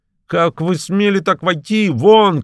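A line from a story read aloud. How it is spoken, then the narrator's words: Trembling, stammering shout. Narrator (Russian): кричал он, дрожа и даже едва выговаривая слова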